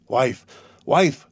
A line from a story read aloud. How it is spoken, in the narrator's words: cried he in a hoarse voice